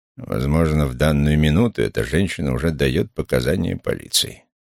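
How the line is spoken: Grumbled. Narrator (Russian): проворчал он

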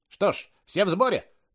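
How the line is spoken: Loud and fast. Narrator (Russian): громко и быстро говорил маленький человек

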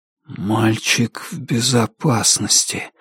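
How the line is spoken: Muffled, hollow voice. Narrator (Russian): глухо произнес Джонни

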